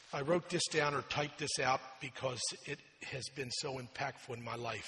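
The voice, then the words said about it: Slower speaking voice. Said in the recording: “my voice is slower today”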